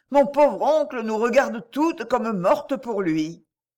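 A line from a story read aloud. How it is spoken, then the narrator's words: Exclaimed. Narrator (French): s'écria-t-elle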